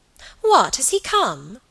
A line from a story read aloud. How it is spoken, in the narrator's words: cried Alicia